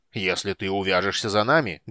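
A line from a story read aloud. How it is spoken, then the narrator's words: Menacing bass from afar. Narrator (Russian): грозно пробасил Флинт из другого конца пещеры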